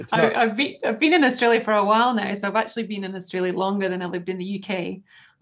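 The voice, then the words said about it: Scottish accent. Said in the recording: “So you're obviously from Scotland. ... You've picked up the accent.”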